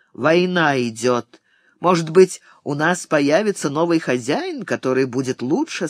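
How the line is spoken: Plain. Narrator (Russian): сказал еще один

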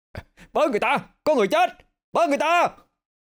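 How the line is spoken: Panicked screaming. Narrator (Vietnamese): Cái vừa gào lên

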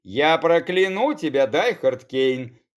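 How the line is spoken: Snarling. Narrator (Russian): Тут же зарычала бывшая Тернова

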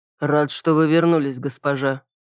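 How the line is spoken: Dry, cold. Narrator (Russian): сухо сказал он

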